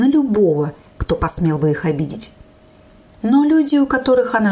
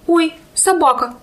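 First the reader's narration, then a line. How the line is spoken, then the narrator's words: Involuntary cry. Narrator (Russian): невольно скрикнула я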